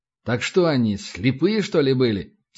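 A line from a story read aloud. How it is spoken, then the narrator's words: Plain. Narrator (Russian): спросил Небогатов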